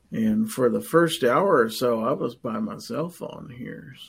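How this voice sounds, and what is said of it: Strained, hoarse voice. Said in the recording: “I'm about to lose my voice.”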